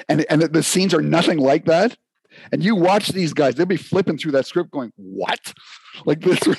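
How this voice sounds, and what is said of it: Usual voice. Nothing is said of it.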